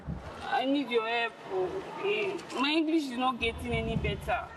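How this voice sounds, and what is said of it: Heavy non-native English accent. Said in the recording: “it's not your English, it's your accent. ... No more pidgin English,”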